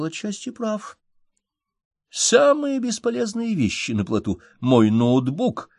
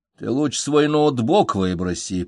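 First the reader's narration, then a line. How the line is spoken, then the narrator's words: Grumbling. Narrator (Russian): проворчал Феликс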